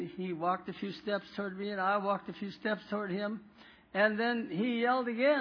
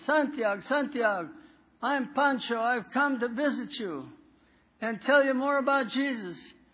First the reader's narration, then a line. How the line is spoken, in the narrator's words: I yelled at him